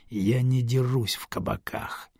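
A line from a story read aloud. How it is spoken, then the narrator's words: Hiss. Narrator (Russian): Грик прошипела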